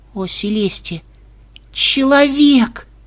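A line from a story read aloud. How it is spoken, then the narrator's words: Pony's hoarse croak. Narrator (Russian): прохрипела пони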